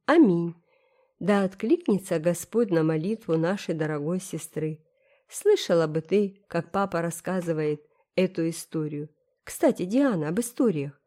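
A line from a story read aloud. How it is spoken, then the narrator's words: Confiding tone. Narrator (Russian): сказала Энн доверительным тоном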